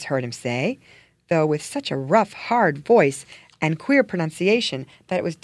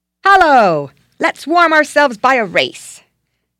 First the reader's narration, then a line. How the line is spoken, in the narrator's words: boy and dog, barking and shouting